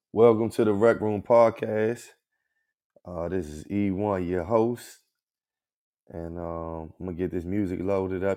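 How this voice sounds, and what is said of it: Slightly hoarse voice. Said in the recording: “I know y'all can hear my voice a little hoarse. Because I'm under the weather.”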